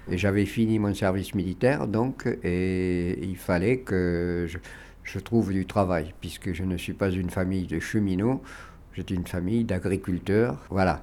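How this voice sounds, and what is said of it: Regional southwestern French accent. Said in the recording (French): “vous avez un joli petit accent de la région dont vous êtes originaire”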